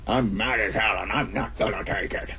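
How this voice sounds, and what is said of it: Imitates a movie character's voice. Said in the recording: “They all start running around the house talking like that. ... That's a great impression.”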